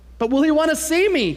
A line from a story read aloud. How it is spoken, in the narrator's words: Punchinello cried out